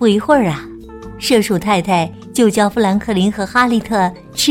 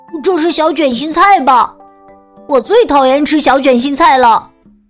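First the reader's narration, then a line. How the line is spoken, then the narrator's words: Loud shout. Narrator (Chinese): 他大声喊道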